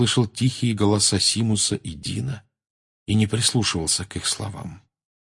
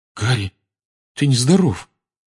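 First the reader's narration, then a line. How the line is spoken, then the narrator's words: Trembling male voice. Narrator (Russian): проговорил он дрожащим голосом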